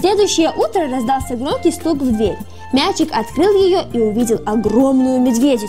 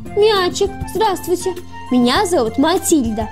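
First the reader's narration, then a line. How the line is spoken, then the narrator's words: Plain. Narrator (Russian): сказала она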